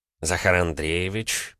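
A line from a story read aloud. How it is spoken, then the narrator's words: Through gritted teeth. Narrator (Russian): процедил Орлов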